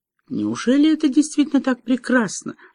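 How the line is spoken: Timid question. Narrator (Russian): робко спросила Тиффани

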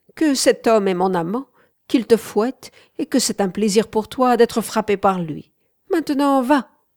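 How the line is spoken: Laughing. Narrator (French): fit-elle en riant

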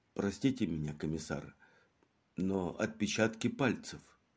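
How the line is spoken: Quiet, embarrassed. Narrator (Russian): Наконец он не выдержал и, покраснев, тихо сказал

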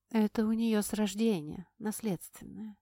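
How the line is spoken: Hollow muffled voice. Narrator (Russian): глухо произнесла Корианна

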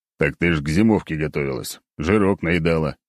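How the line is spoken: Snorting chuckle. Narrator (Russian): хмыкнул я

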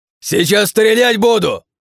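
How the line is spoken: Shouting as loud as possible. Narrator (Russian): как можно громче кричал он

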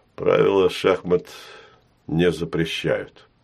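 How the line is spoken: Calm reply. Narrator (Russian): спокойно отозвался Долбушин

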